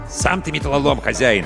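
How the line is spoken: Snapping retort. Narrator (Russian): огрызнулся Аркаша

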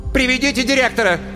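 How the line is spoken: Shout. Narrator (Russian): крикнула Светлана Семеновна

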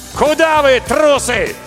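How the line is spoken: Shouted. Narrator (Russian): И крикнул

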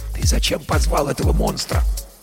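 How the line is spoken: Whisper in ear. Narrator (Russian): шепнул Герман на ухо

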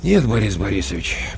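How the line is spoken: Sighing. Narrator (Russian): почему-то вздохнув, сказал Коля Краноухов

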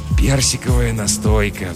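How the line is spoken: Sigh. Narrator (Russian): вздохнул жихарь

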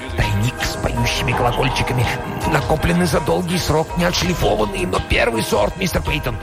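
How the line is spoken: Whispering. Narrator (Russian): Корнуэлл шептал

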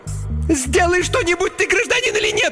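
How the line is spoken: Indignant shriek. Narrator (Russian): возмущенно завизжала Инга

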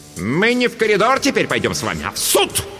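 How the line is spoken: Barked. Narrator (Russian): рявкнула Дурцева

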